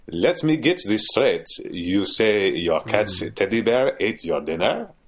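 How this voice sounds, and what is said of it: Put-on German accent. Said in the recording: “the psychiatrist is French ... I attempted a German accent ... It's a good voice.”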